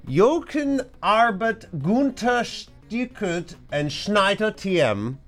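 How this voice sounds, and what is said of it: Slips into a German accent. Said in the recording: “Why did I go into a German? I didn't mean to do that, honestly. I started getting into a German accent. ... My dumb brain started going into a German accent.”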